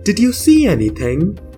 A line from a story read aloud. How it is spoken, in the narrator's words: cried, asked